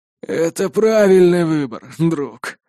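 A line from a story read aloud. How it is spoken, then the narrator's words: Relieved sigh. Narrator (Russian): с облегчением вздохнув, ответил Бланш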